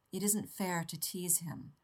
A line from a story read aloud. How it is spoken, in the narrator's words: Taylor said quietly